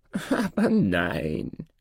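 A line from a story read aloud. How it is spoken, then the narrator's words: Dwarf laughing. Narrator (German): lachte der Zwerg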